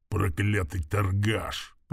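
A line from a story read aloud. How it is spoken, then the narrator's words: Quiet growl. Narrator (Russian): прорычал орк тихо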